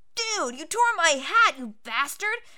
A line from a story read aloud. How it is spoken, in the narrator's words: Alfred exclaimed